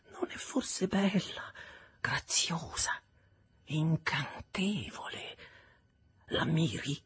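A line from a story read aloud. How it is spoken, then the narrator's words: Whispered. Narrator (Italian): sussurrò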